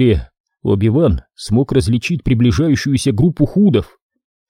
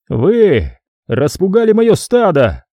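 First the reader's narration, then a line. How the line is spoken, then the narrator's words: Roaring. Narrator (Russian): взревел он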